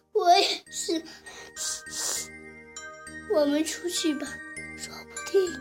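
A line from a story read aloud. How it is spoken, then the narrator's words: Sobbing. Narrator (Chinese): 猪太太抽泣着说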